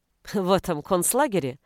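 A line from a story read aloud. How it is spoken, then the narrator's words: Scoffing. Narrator (Russian): хмыкнула Зина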